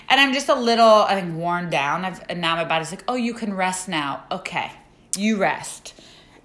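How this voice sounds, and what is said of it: Slightly raspy, tired voice. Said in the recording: “my voice is a little raspy.”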